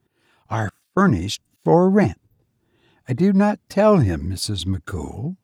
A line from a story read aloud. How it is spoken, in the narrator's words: Purdy, in her furriest tones